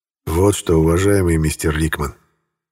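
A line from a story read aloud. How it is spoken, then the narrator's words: Sigh. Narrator (Russian): вздохнул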